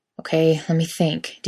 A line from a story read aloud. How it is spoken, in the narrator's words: Dean muttered